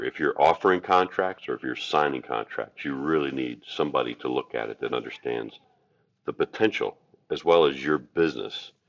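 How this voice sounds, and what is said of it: Deep voice. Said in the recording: “your amazing, deep voice”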